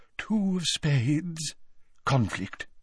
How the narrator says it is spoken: she murmured

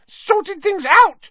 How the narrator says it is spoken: squealed Pettigrew, looking wildly about him

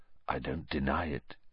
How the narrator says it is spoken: he said, very quietly

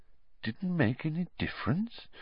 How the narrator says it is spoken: said Dumbledore quietly

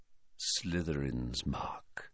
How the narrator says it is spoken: he said quietly

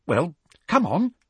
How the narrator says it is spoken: said Hermione, slightly nervously

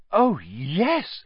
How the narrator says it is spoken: said Hermione eagerly

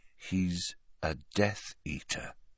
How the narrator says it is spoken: said Harry slowly

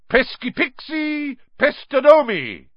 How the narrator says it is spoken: bellowed

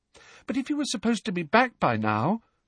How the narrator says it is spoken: said Hermione, in a small, anxious voice

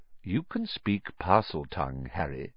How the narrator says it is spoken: said Dumbledore calmly

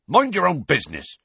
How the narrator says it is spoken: said Hagrid angrily

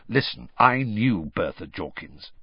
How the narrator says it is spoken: said Sirius grimly

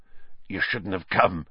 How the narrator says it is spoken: Hagrid whispered

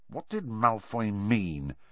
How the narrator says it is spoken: Harry muttered to Ron

